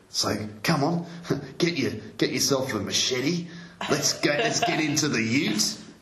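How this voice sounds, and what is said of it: Australian accent, rising intonation. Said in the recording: “this Australian accent, which kind of seems to go up at the end”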